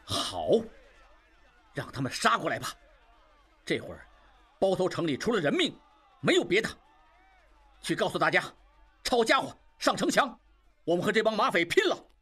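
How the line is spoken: Angry. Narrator (Chinese): 应济一时间喜气全无，怒道

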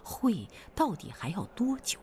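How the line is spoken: Plain question. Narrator (Chinese): 朱团长就问乡上拿事的

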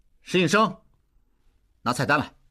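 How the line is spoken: Shout. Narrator (Chinese): 应济喊

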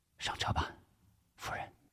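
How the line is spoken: Soft, gentle. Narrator (Chinese): 吴石轻声说

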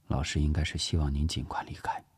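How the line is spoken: Low voice. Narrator (Chinese): 叶希低声说

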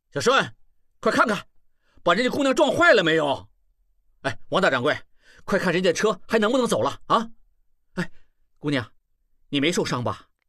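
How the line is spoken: Loud shout. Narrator (Chinese): 他大声喊起来

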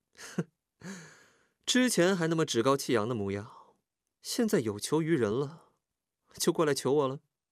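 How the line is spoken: Sneering. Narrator (Chinese): 他冷笑着 说道

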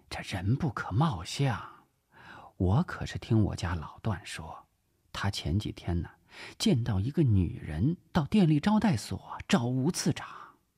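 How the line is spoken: Smug, lowered voice. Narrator (Chinese): 段太太愈发得意了，压低声音说

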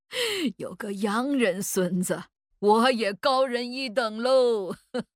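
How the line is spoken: Laughing. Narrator (Chinese): 老祖笑着说

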